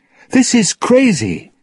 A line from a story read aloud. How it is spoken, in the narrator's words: Elizabeth shouted